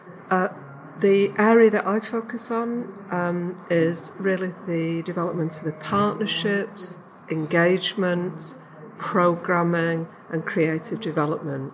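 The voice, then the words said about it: English Yorkshire accent. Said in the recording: “you don't sound very Scottish ... you can tell my voice is, an English voice, and I come from Yorkshire”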